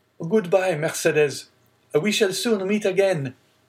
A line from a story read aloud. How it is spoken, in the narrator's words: leaning from the coach, he called out